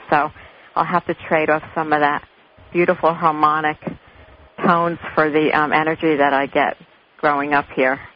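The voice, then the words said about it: Very obvious New Jersey accent. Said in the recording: “New Jersey. ... You have a New Jersey accent. ... A very obvious New Jersey accent.”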